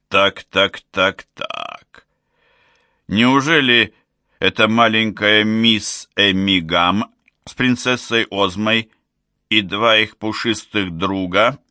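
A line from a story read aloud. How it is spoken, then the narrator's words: Drawled. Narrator (Russian): протянул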